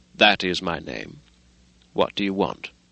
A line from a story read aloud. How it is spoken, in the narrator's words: he answered coolly enough